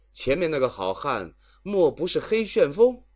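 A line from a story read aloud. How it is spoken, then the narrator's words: Calling out. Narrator (Chinese): 晁盖猛然想起戴宗的话，便叫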